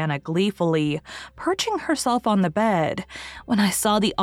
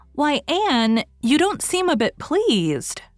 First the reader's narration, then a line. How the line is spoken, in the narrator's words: she exclaimed